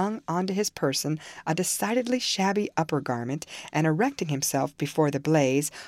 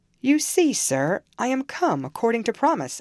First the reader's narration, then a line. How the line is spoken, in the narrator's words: I exclaimed, assuming the cheerful